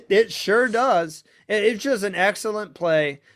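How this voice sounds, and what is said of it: Usual voice. Nothing is said of it.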